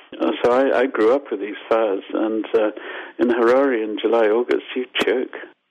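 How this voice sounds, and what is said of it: Zimbabwean accent. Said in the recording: “I'm Zimbabwean, as you probably got from my accent.”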